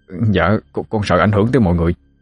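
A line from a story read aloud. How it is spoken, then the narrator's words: Trembling reply. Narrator (Vietnamese): Thằng Mã run run đáp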